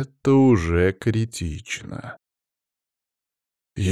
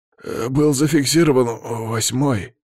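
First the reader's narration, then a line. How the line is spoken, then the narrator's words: Forced out, strained. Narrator (Russian): выдавил из себя начальник подстанции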